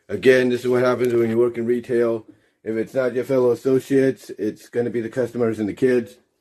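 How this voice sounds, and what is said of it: Hoarse voice. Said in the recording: “I do apologize for my voice. If it sounds a little hoarse, like I said, I caught something ... It just feels like my voice is going a little bit.”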